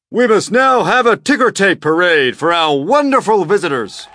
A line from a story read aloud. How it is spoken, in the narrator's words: the mayor shouted